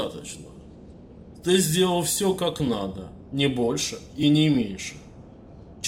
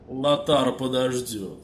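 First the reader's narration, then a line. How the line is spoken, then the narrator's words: Plain. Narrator (Russian): ответил Минди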